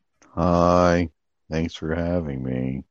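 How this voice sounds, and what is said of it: Imitates another person's voice. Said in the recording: “That's a pretty good Gizzard impression.”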